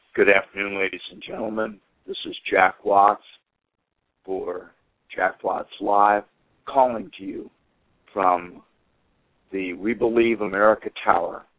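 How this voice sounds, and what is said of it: Voice impaired by illness. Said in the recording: “as you can tell from my voice, I have what everybody else seems to have ... I am a little impaired”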